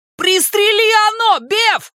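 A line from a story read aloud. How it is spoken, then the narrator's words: Shouted. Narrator (Russian): крикнул Ричи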